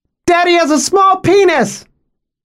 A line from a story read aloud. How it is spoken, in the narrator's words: She shouted